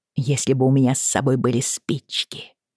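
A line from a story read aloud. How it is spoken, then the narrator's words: Mutter. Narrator (Russian): пробормотала она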